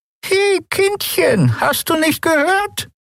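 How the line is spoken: Croaking old woman. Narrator (German): krächzte die alte Frau

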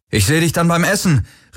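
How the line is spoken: Called out. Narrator (German): rief er Kirai zu

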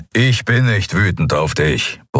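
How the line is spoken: Grumbling. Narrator (German): brummte er

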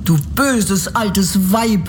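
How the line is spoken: Angry girl shouting. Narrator (German): rief das Mädchen und wurde so zornig

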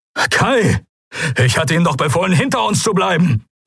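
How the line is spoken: Calling out. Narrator (German): rief Telios

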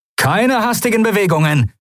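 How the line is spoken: Called out. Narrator (German): rief er den Weißmänteln zu

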